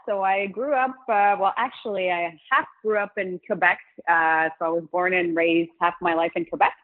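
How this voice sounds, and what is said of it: Mixed French and English accent. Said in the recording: “this weird French and English accent”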